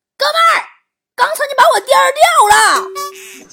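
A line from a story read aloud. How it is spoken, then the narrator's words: Angry shouting. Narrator (Chinese): 愤怒地 冲表哥大喊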